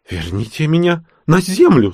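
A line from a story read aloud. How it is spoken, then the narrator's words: Old woman shrieking. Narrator (Russian): завизжала молодящаяся старуха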